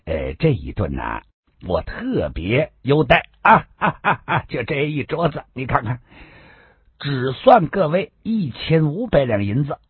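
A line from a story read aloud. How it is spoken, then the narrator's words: Laughing. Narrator (Chinese): 好生意笑着说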